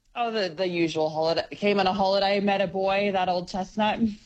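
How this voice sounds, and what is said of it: Canadian accent with Australian touches. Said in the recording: “a little North American accent there ... We've got a Canadian accent. ... You've got a little bit of Aussie thrown in there too. ... your international accent”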